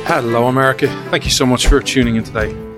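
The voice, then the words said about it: Irish accent. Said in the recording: “This Irish man ... come for the accent”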